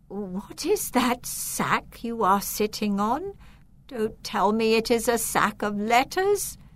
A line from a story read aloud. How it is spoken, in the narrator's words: She said in a shaky voice